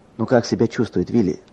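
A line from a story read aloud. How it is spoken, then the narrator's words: Plain. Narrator (Russian): спросил я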